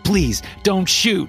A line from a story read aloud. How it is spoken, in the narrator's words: a man yelled in panic